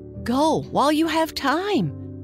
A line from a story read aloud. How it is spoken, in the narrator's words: cried the moonbeam